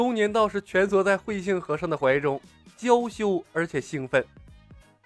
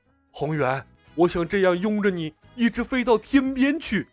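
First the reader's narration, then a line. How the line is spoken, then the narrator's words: Happy, loud. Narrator (Chinese): 慧性和尚 脸上洋溢着幸福的笑容，高声道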